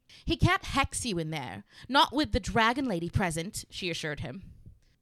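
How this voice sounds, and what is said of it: Put-on character reading accent. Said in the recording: “My accent is so off tonight”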